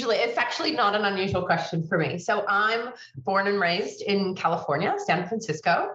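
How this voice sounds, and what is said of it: Very unique accent. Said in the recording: “you have such a very unique accent, a very unique voice”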